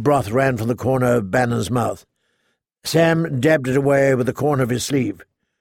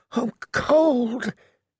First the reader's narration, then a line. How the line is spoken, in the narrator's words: he said again, so faintly